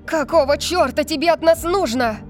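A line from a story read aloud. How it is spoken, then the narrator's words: Shouting. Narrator (Russian): закричала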